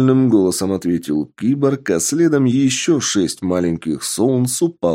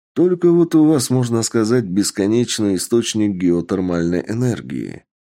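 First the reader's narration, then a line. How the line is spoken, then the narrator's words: Plain. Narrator (Russian): ответил Сергей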